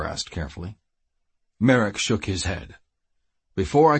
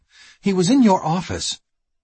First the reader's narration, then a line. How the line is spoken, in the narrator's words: she blurted